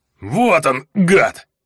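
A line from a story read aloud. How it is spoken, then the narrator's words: Orc's straining growl. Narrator (Russian): рыкнул орк с натужным кряком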